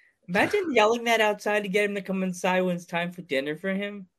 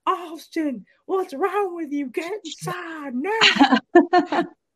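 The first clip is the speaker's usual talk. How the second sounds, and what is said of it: Southern accent, talking out of mouth-side. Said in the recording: “I end up sounding like JR, yelling Austin ... give yourself a southern accent and talk on the side of your mouth”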